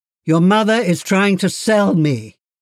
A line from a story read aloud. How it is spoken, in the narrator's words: My father would laugh, and say